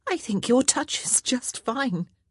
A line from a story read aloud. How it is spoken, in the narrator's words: she said hastily